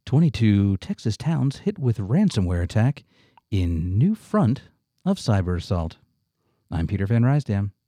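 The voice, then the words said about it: Slow NPR announcer voice. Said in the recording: “You need to use your NPR voice when you read the headline. ... Oh, it's going to be very slow”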